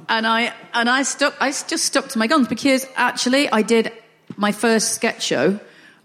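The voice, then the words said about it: Northern English accent. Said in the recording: “I don't want to change my accent. I'm quite happy with a Northern accent.”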